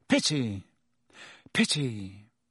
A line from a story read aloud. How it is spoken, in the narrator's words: He sighed deeply